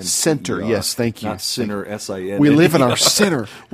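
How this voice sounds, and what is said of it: Appalachian accent. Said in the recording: “our listeners who may not understand our accent ... Us Appalachian boys have a hard time with T's.”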